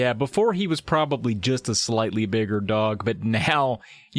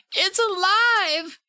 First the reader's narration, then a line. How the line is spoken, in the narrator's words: Andy screamed